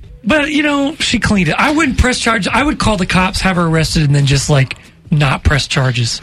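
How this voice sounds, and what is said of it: Usual voice. Nothing is said of it.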